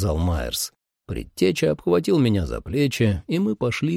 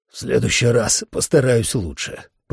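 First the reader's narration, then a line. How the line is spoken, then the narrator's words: Hoarse rasp. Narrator (Russian): прохрипел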